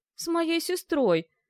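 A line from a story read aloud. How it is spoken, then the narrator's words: Bewildered, astonished agreement. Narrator (Russian): растерянно поддакнул Жак, изумленный столь невероятным обстоятельством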